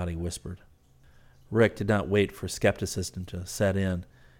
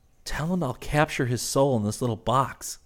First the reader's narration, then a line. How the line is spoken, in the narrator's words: Rick said excitedly